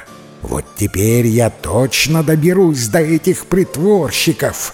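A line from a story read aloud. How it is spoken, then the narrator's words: Spiteful hiss, stepmother. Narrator (Russian): злобно прошипела мачеха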